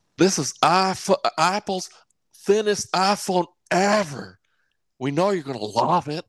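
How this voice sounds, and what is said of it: Imitates another person's voice. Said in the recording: “let me do my Tim Cook accent here”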